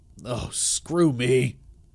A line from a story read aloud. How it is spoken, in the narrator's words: I hissed, realizing how stupid I had been